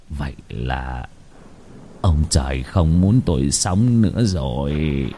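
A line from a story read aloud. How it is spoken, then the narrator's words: Despairing mutter. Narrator (Vietnamese): Ông lẩm bẩm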